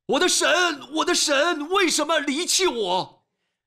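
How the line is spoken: Crying out. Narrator (Chinese): 耶稣喊着

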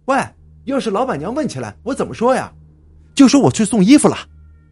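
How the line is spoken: Calling from behind. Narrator (Chinese): 小红在后面喊

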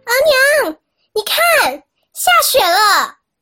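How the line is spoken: Shouting. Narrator (Chinese): 大喊

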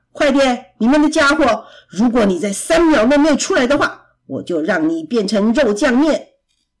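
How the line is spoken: Bear roaring loudly. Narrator (Chinese): 熊大声吼叫

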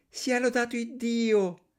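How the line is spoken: Exclaimed. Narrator (Italian): esclamò l'altra

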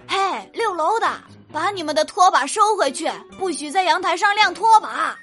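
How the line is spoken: Woman shouting from below. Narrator (Chinese): 宿舍阿姨啊，就站在楼下大喊

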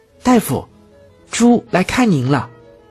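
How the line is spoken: Shout. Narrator (Chinese): 一声喊叫

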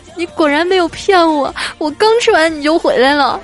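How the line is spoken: Crying. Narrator (Chinese): 这女孩哭着说

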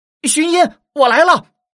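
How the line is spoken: Loud shout. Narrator (Chinese): 有人高喊

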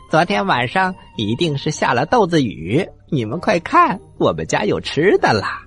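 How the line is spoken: Loud. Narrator (Chinese): 他们大声的说

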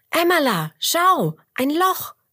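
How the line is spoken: Calling out. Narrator (German): ruft Roberto

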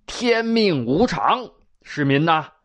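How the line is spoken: Stern, harsh. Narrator (Chinese): 李渊后退两步，厉声说道

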